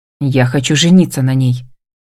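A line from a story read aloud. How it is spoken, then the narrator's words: Stern, slightly combative assurance. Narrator (Russian): заверяет Джек строго и немного воинственно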